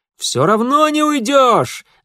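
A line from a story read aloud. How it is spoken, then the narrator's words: Excited shout. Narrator (Russian): азартно выкрикнул Митя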